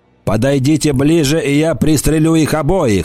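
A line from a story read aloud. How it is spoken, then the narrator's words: Shouting. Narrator (Russian): закричал Голан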